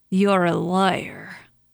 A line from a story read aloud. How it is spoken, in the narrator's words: slurred